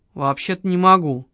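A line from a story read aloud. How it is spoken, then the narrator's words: Gloomy. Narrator (Russian): мрачно ответил ухо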